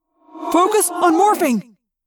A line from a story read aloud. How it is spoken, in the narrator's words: Jake yelled